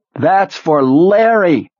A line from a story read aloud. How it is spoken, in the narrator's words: one of the orange-clad women was screaming